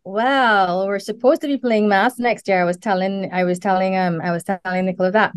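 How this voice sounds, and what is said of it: Trinidadian Caribbean accent. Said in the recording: “lovely accent ... The Southern Caribbean. So Trinidad.”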